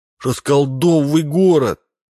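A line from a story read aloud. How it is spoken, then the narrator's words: Shouting. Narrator (Russian): кричал он на Минца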